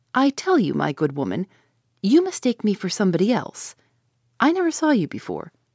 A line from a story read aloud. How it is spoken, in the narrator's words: said in a rather milder tone